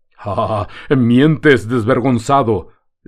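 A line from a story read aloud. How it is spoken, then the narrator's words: Arrogant shout. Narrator (Spanish): le gritó el gitano lleno de soberbia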